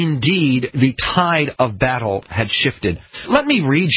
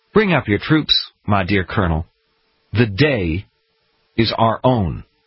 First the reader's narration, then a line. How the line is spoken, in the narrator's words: Washington, in his calm and soft voice, said